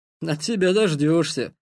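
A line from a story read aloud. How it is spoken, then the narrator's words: Snort. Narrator (Russian): хмыкнул Ярослав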